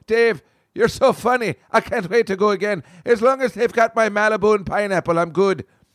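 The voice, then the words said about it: Imitated Irish accent of older woman. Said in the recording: “She's Irish. She has got the accent”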